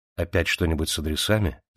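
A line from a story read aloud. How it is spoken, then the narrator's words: Low voice. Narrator (Russian): спросил он вполголоса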